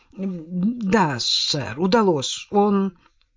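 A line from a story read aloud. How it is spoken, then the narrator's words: Uncertain. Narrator (Russian): Темплтон неуверенно произнес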